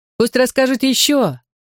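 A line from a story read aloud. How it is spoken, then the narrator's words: Crowd shouting. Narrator (Russian): закричали зрители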